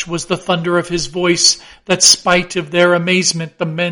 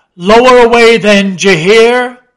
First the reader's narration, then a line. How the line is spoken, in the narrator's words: shouting across the deck